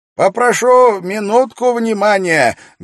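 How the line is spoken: Loud interruption. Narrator (Russian): громко прервал раздумья собравшихся Кроули

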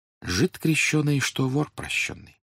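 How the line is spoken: Apologetic whisper. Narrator (Russian): говорили шепотом другим гостям, как бы оправдываясь

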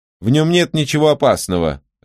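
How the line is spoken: Irritated. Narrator (Russian): раздраженно сказала она

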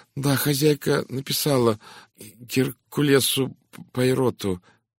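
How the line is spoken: Uncertain maid. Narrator (Russian): неуверенно произнесла горничная

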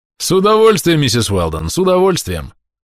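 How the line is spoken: Cheerful. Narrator (Russian): весело ответил Гаррис

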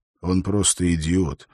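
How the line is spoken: Grumbling. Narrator (Russian): буркнул Холт

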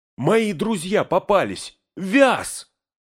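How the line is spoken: Breathless shout. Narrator (Russian): Еле переводя дыхание, выкрикнул Фродо

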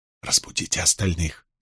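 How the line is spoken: Whisper. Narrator (Russian): сказал Перин шепотом

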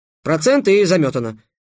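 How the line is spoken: Cheerful. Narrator (Russian): бодро сказал Песя

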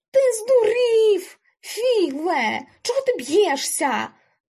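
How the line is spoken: Shouted. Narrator (Ukrainian): крикнув Рулле

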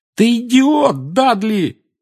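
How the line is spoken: Yelling. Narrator (Russian): завопил Гарри

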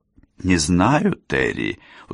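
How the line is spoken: Tired reply. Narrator (Russian): устало отвечала Долорес

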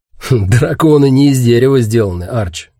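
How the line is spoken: Snort. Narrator (Russian): хмыкнул Гэрис

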